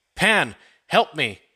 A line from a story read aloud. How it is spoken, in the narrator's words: cried